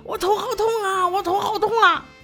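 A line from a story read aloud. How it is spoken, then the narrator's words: Man howling in pain. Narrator (Chinese): 这人却嗷嗷鬼叫了起来，说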